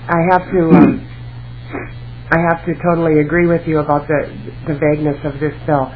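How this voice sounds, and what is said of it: Strained, failing voice. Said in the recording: “I hope my voice holds out here this time ... my voice is not cooperating here”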